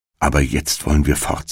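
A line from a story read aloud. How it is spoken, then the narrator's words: Plain. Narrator (German): sagte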